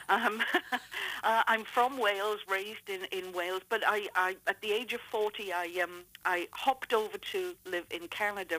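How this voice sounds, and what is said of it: Welsh accent. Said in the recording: “what they're detecting at the moment is a Welsh accent”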